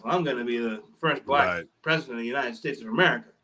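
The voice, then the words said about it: Imitates another person's voice. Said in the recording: “that's my Obama. ... impression ... Good. I was down with it.”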